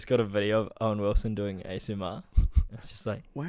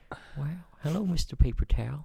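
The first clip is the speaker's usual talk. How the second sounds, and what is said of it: Imitates another person's voice. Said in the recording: “spot on Owen Wilson impersonation”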